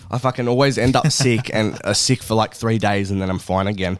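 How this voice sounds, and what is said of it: Voice sounding sick, recovering. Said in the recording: “as you can probably tell in my voice, I'm getting over sickness again”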